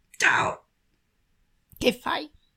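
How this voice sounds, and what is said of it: Tiny tender cutesy voice. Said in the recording (Italian): “con la vocina tenera”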